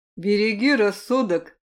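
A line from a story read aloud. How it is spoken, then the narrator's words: Smirking snort. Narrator (Russian): хмыкнул я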